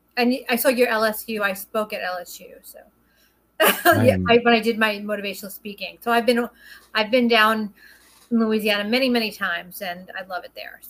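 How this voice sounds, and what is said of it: Strong Brooklyn accent. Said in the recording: “I have a very, very strong Brooklyn accent”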